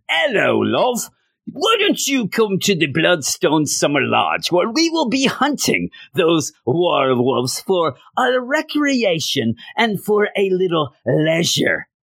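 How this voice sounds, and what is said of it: Bad put-on British accent. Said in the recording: “That's the worst British accent ever”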